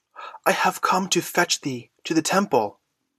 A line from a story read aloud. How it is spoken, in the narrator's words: breathed the boy excitedly